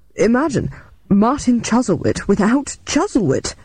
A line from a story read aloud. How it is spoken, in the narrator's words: he exclaimed earnestly